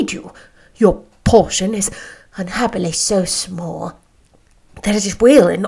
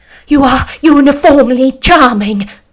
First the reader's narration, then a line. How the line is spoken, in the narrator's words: cried he, with an air of awkward gallantry